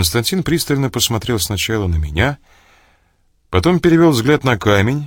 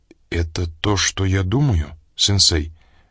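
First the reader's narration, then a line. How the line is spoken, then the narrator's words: Hoarse question. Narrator (Russian): хрипло спросил Костя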